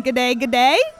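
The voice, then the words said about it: Put-on Australian accent. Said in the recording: “Oh, good Australian accent there.”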